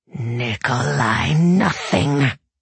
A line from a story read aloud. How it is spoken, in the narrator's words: snarled the demon